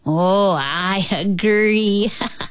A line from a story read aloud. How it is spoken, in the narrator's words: he laughed